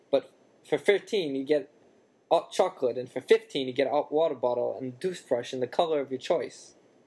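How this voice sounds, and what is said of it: Botched character accent. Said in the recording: “Wow, I screwed up that accent.”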